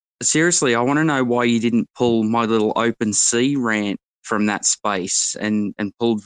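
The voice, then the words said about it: Posh Australian accent. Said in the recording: “your accent's one of the best I've ever heard. So posh ... he's like 5-star Australian”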